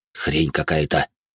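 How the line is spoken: Lost, mumbling man. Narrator (Russian): потерянно буркнул мужик

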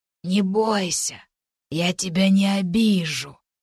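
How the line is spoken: Gentle husky lying voice. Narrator (Russian): нагло врала Рике ласковым голосом с хрипотцой

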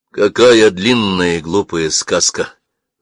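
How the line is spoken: Displeased. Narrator (Russian): проговорил я недовольным голосом

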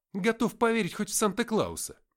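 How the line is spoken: Exclamation. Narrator (Russian): воскликнул

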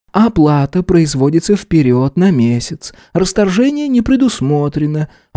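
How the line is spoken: Heavy sigh, then spoken. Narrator (Russian): она неожиданно тяжело вздохнула и сказала

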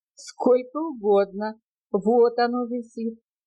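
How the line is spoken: Loud laughter, barber. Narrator (Russian): ответил цирюльник, громко расхохотавшись

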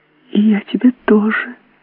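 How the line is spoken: Shy child's whisper. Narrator (Russian): шепнула малютка и в нежной стыдливости

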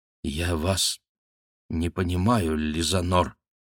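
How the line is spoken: Stammering. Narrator (Russian): проговорила она, запинаясь

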